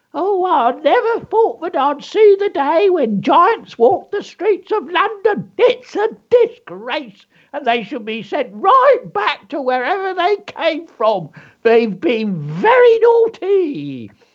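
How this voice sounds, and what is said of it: Put-on eyewitness character voice. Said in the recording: “I love doing that. Do the voices, folks.”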